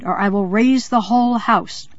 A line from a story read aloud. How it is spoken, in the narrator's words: I screamed